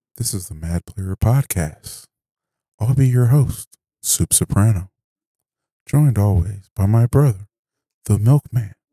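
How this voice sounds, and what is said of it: Mock public-radio announcer voice. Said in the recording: “I was using my NPR voice.”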